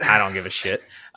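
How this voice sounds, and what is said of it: Put-on Southern accent. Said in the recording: “I use a Southern accent.”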